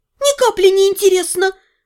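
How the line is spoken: Squealing. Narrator (Russian): взвизгнула я

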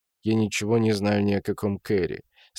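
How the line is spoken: Calm man. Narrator (Russian): спокойно продолжал мужчина

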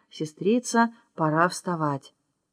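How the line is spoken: Soft quiet speech. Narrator (Russian): царевна смотрит на нее с ужасающей лаской во взоре, и услышала, как та говорит тихонько

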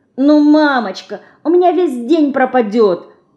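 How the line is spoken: Pleading girl. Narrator (Russian): взмолилась Динка

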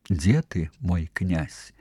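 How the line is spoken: Soft tender voice. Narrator (Belarusian): запыталася мяккім пяшчотным голасам

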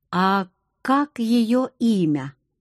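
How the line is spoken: Slow question. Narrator (Russian): медленно спросил Акир

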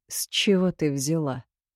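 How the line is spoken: Calm inquiry. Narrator (Russian): спокойно поинтересовался хмырь

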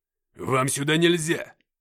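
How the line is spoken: Weak slurred offended bark. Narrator (Russian): Я едва стоял на ногах, но с обидой невнятно рявкнул

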